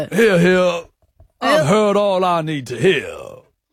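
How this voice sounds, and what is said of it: Detective character voice. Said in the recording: “Judge Jarchy was American in the intro... you sound like a detective character.”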